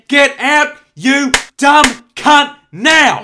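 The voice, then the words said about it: Yelling angrily. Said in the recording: “Why are you yelling at me”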